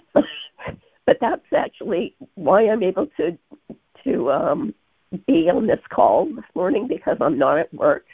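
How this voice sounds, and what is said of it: Sick, unwell-sounding voice. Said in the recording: “please pardon my voice. I'm homesick.”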